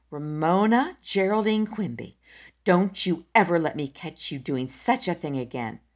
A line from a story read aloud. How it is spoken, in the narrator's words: she said angrily